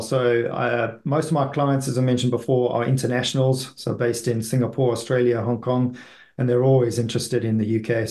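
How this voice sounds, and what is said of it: South African accent. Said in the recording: “you've got a bit of an accent. Is that South African or? ... South African, that's right.”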